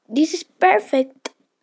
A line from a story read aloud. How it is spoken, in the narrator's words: she said happily